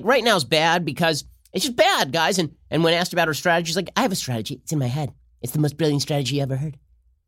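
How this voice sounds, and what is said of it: Imitates another person's voice. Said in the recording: “doing the Trump voice ... that sounds like Trump”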